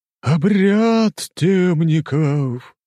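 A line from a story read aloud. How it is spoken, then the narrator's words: Sudden mournful drawl. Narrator (Russian): Вдруг заунывно протянул один из них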